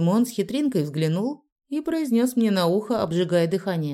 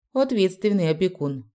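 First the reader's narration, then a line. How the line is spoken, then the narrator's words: Snort. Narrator (Russian): хмыкнул Дезмонд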